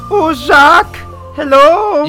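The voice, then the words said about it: Silly over-the-top German accent. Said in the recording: “silly, over-the-top Nick Kroll-ian German accent”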